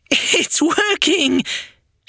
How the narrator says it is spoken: shrieked with delight

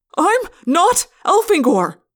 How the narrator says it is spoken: I yelled

